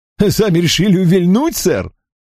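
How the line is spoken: Laugh turning pained. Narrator (Russian): Чилдермас рассмеялся, но тут же сморщился от боли

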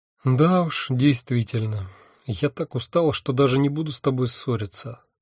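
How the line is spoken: Tired sigh. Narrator (Russian): вздохнула Афина

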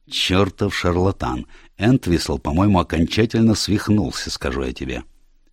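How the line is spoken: Clearly audible whisper. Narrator (Russian): хорошо слышным шепотом сказал своей жене

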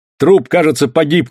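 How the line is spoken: Shout. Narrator (Russian): крикнул я

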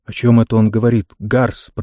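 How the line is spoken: Officer mumbling. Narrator (Russian): пробормотал один из офицеров

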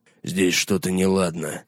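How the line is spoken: Mutter. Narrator (Russian): пробормотал Гаррет

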